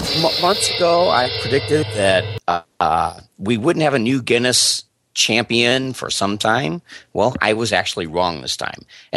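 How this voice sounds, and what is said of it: Slightly scratchy voice. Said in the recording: “I'm just kind of getting over some sickness here, so my voice is a little scratchy”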